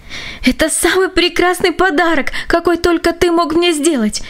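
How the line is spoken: Joyful exclamation. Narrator (Russian): воскликнула она

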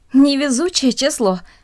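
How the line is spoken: Said, then laughed. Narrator (Russian): сказала одна из них и засмеялась

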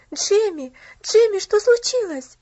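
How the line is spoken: Shouted. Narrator (Russian): закричала она

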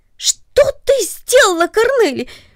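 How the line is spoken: Sudden surprised cry. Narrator (Russian): вскрикнул он от внезапного удивления

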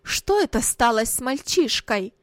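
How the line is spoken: Angry mother, crying out. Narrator (Russian): сердито вскричала мать

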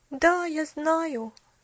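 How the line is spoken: Sighing. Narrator (Russian): вздохнула Поллианна

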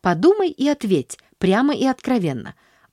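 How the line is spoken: Anxious insistence. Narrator (Russian): взволнованно настаивала

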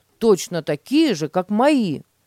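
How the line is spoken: Exclaiming. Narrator (Russian): воскликнул Петя

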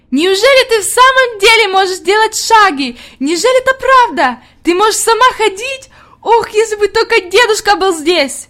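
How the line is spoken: Ecstatic shouting. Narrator (Russian): Хади закричала в ответ с еще большим восторгом

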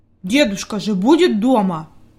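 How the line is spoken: Angry mutter. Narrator (Russian): буркнул Питер сердито

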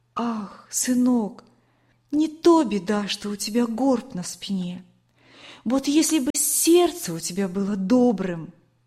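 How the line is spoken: Tender. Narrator (Russian): она ласково говорила

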